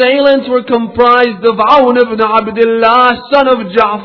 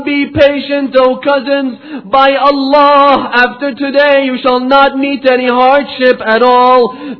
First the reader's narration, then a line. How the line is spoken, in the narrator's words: Hussein called out to them